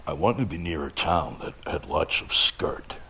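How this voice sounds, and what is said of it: Imitating Jim Haynes's accent. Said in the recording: “as Jim always said, the most great, greatest voice, great accent.”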